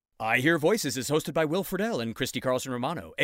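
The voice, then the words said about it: Announcer voice. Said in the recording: “that was my announcer voice.”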